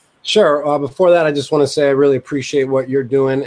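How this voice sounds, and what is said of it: Thick New York accent. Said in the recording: “people can tell you're from New York. Your accent's a little bit thicker than mine”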